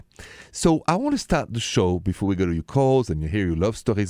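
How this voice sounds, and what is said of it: French accent. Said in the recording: “the accent French. Français.”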